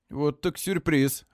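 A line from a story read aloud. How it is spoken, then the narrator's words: Confused. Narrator (Russian): растерянно говорит Флорин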